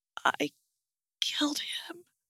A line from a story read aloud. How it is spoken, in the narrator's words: she whispered and repeated